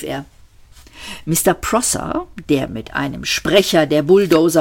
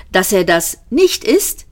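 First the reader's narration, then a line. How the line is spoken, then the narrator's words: Calling out. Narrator (German): rief Ford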